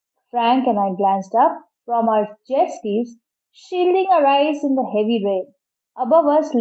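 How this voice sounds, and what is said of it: Usual voice. Nothing is said of it.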